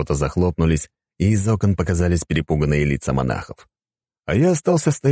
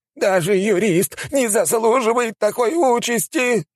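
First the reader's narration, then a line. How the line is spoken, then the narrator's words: Old man exclaiming. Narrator (Russian): воскликнул старик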